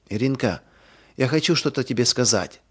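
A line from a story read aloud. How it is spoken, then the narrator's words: Whisper. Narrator (Russian): прошептала она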